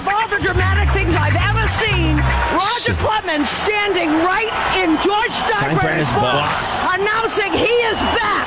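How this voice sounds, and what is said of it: Strong Boston accent. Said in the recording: “How can you have that accent calling in Yankees games? That's like the most Boston accent I've ever seen.”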